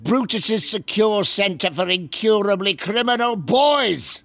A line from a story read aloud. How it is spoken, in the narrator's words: bellowed Uncle Vernon